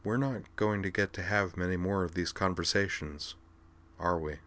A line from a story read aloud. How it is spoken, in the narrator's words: smiled a bit sadly and said quietly